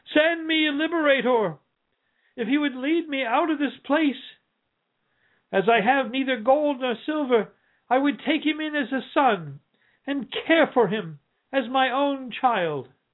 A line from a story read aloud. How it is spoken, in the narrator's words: cried the poor man at last